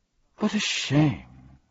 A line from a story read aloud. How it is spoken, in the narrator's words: sighed the dodecahedron